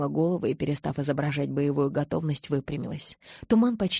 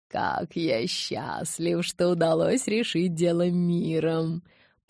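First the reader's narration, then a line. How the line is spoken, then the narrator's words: Purring. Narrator (Russian): промурлыкал он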